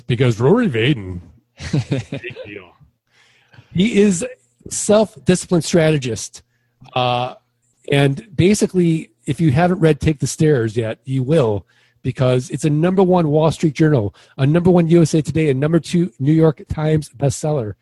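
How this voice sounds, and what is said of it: Mock news anchorman voice. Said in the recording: “going to put on my Anchorman voice,”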